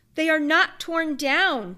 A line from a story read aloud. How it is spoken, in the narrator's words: cried Scrooge